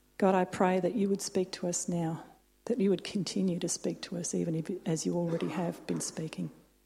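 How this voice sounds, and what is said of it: Hoarse, strained voice. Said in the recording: “I've lost my voice again”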